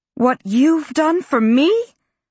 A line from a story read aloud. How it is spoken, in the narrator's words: Rosemary shouted at Christopher